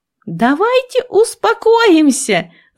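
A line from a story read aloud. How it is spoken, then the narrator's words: Yell. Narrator (Russian): заорала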